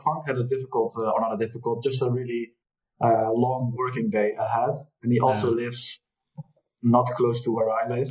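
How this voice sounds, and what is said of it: Dutch accent. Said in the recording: “You have such a Dutch accent.”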